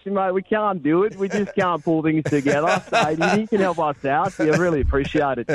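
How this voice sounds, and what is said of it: Mediocre put-on Australian accent. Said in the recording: “Do that in an Australian accent. ... That one wasn't quite as good as your Scottish one.”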